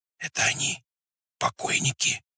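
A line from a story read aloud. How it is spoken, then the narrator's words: Whisper in darkness. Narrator (Russian): прошептал в темноте чей-то голос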